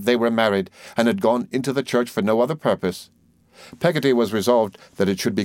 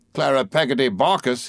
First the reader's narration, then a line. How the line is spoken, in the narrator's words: returned, and burst into a roar of laughter that shook the chaise